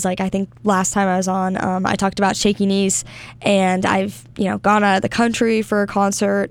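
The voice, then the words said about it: Hoarse, slightly lost voice. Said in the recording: “losing my voice a little bit ... I am a little sick”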